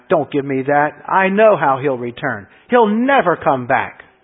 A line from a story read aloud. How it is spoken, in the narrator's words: Anna snapped